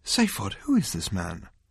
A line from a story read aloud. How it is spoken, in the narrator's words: said Trillian shakily